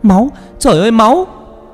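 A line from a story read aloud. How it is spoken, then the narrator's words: Screaming on waking. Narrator (Vietnamese): Vừa tỉnh dậy thì con Vân Anh hét lên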